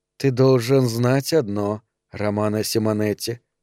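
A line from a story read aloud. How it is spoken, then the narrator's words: Quiet. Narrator (Russian): сказала она тихо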